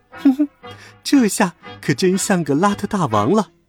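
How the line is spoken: Mocking. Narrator (Chinese): 小白鼠却嘲笑道

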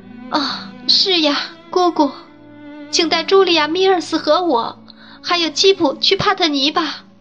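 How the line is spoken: Crying. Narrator (Chinese): 朵拉哭道

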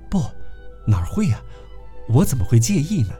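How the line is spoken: Smiling reply. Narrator (Chinese): 微笑着答道

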